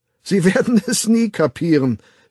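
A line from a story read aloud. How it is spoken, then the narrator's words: Laughing. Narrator (German): fügte lachend hinzu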